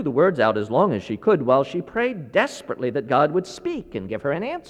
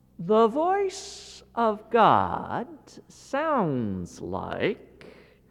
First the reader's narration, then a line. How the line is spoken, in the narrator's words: She began slowly saying